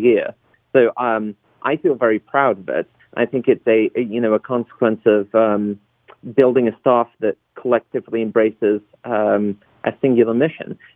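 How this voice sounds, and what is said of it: Interesting non-American accent. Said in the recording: “obviously have an interesting accent.”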